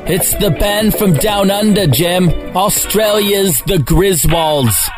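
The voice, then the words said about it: Poor put-on Australian accent. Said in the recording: “That's my Australian accent, Jim. It's terrible, I know.”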